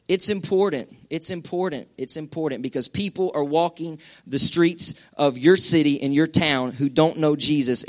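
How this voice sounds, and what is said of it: Southern twang in speech. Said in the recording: “I feel like I got twang going on up here tonight ... I got this accent ... this twang thing”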